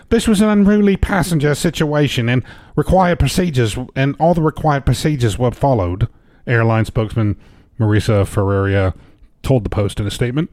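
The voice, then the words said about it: Put-on accent. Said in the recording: “I'm just going to keep with this accent because I don't know who this person is.”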